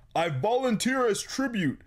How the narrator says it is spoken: at the top of her lungs

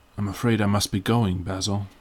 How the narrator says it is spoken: he murmured

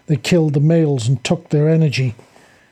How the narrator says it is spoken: Jack exclaimed

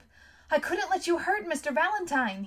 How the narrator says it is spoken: he said, shouting to make her hear him above the din of the gut

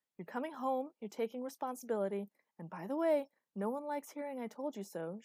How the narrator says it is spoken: she yelled

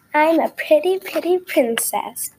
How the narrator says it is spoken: I exclaimed

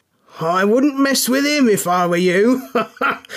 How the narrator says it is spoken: shouted Hyde with a chuckle

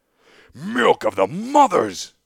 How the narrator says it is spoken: I cried in my own tongue

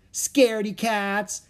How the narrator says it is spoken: Annie shouted after them

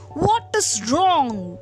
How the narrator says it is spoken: growled the lion

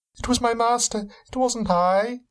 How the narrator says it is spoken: pleaded from the ground

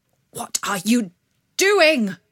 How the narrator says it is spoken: cried the father

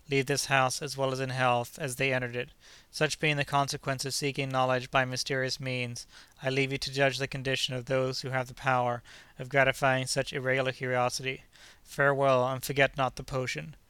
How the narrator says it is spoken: added, in a melancholy tone

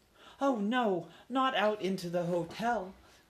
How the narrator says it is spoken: cried Ralph's mother

